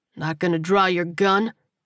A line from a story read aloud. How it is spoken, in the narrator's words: Marco asked with a sneer